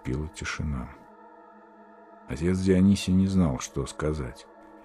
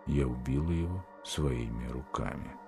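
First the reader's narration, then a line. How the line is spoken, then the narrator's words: Lifeless voice. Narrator (Russian): повторила мертвым голосом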